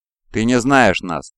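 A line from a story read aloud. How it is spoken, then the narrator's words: Plain. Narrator (Russian): ответил Эканус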